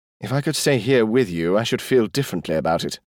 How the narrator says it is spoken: Jimmy said

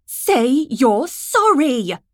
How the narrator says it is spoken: she yelled

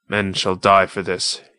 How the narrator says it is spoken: he said coldly

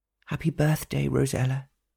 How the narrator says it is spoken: whispered sadly to herself

